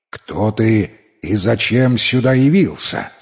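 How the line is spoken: Stern question. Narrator (Russian): спросили они строго

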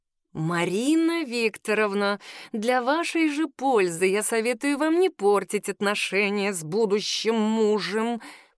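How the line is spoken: Hissing. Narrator (Russian): прошипел брачный агент

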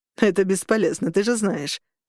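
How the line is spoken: Snorted. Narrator (Russian): фыркнул Дэвид

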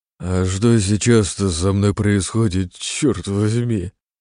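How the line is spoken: Mumbling. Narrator (Russian): промямлил

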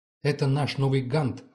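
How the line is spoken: Boy shouting. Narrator (Russian): кричал мальчишка

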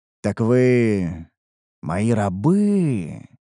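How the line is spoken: Drawled, confirming tone. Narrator (Russian): протянул я, скорее подтверждая свои догадки, а не вопрошая

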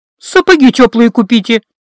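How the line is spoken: Snapped. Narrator (Russian): огрызнулась я

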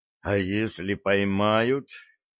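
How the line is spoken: Trembling whisper. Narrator (Russian): дрогнувшим голосом прошептал Джо

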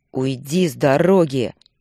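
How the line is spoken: Growled. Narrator (Russian): прорычал Руслан

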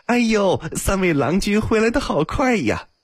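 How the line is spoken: Cheerful, smiling. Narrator (Chinese): 阿金脸上立刻笑开了花，道

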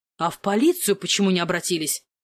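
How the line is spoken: Stern doctor asking. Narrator (Russian): строго спросил доктор

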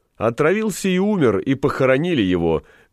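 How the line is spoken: Loud, laughing. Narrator (Russian): громко подхватил засмеявшийся Галеран

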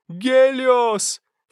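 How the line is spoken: Sharp cry. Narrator (Russian): вскрикнула Селина

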